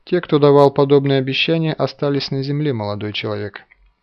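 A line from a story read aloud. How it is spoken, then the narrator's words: Calm objection. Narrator (Russian): спокойно возразил Галанин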